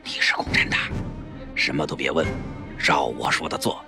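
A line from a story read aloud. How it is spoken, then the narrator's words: Startled hushed voice. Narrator (Chinese): 薛家计吃惊地 压低声音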